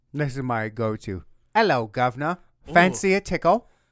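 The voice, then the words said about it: Bad mixed put-on British accent. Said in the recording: “That's bad. It's like Southern. ... It's a little Irish, maybe. ... A little Southern Irish, yeah. ... Maybe a little bit of Cambodia. ... It's the whole world all wrapped in one accent.”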